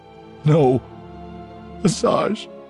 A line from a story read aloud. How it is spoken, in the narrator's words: begged